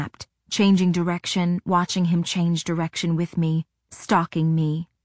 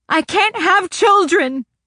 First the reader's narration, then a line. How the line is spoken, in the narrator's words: I shrieked